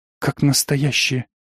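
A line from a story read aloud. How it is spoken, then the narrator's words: Female whisper. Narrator (Russian): шепнула напарница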